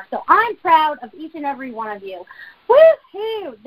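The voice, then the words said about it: Excited, energetic voice. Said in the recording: “I can't even tell you how excited I am right now. I hope you guys can hear it in my voice.”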